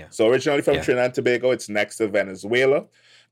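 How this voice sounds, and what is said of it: Trinidadian accent. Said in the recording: “my twang or accent ... Where does that accent hail from? ... originally from Trinidad and Tobago”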